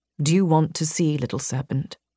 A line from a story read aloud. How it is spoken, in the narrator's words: He murmured